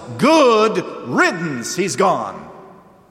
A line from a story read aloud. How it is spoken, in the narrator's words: everybody who is party to that scheme shouts